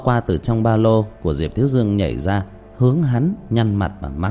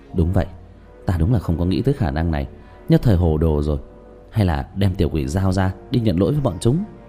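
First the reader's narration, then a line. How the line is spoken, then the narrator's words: Stunned muttering. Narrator (Vietnamese): Tứ Bảo há hốc mồm lẩm bẩm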